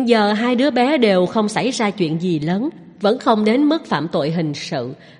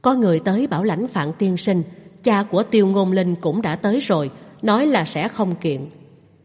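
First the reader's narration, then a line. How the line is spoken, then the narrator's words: Young man, quiet voice. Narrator (Vietnamese): Một cảnh sát trẻ tuổi … nhỏ giọng nói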